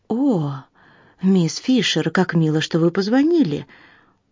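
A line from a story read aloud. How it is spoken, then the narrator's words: Husky exclamation. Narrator (Russian): воскликнул хрипловатый голос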